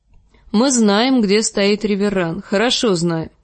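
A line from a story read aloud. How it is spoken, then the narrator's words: Plain. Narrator (Russian): сказал Джек-счастливчик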